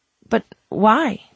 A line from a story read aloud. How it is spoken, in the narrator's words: the woman sputtered